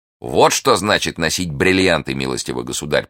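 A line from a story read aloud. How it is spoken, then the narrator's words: Contemptuous remark. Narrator (Russian): презрительным тоном заметил Атос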